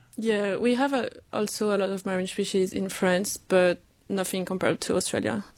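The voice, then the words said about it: French accent. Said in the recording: “you obviously have a French accent”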